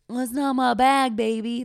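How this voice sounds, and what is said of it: Poor imitation of a movie character. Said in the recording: “How, like Austin Powers ... That's a terrible impression.”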